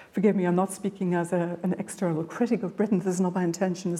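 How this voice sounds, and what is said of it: Irish accent. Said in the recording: “I hear me speaking with an Irish accent.”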